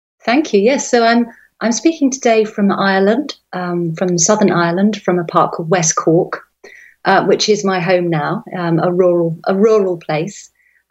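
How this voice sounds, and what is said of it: Non-American accent. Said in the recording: “as listeners might be able to tell from your accent that you are not an American”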